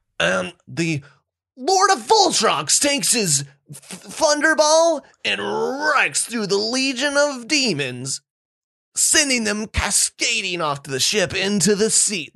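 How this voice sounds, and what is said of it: Dramatic dungeon master character voice. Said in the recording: “This is my best impression of the dungeon master, who is like out of a movie. He's 300 pounds, he has this big beard, glasses”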